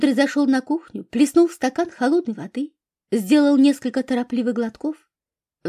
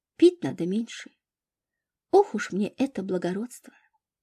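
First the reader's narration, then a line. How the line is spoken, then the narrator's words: Sighing whisper. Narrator (Russian): Катя вздохнула и прошептала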